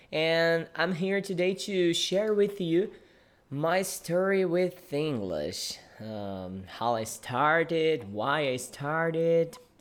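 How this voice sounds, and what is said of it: Non-native English accent. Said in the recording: “if you are a native English speaker, maybe you can consider my accent a little bit weird or strange somehow”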